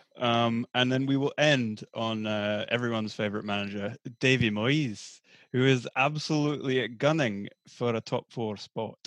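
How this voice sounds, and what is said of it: Put-on different accent. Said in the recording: “sound much better than your regular accent. You need to just speak like this forever ... it's probably very offensive”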